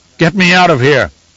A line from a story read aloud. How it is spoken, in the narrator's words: he bellowed to his guards